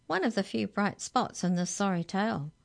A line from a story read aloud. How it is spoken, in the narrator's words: said the mouse